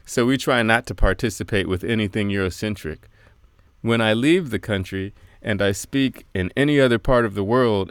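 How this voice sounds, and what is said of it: American accent. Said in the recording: “as soon as people hear my accent, they say, oh, you're American ... an American accent”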